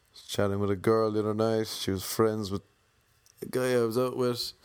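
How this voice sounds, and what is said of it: Irish accent. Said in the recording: “because of my accent ... No, I'm just Irish ... oh my God, I love the accent. I can't understand a word you're saying”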